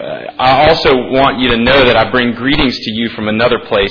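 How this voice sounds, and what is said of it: Southern US accent. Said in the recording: “my accent, which you might have recognized ... is from the South.”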